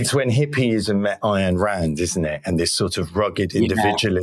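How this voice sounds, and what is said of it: Usual voice. Nothing is said of it.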